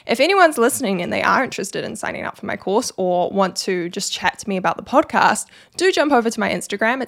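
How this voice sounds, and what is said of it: New Zealand accent. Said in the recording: “I just have a terrible Kiwi accent that makes it sound like an A.”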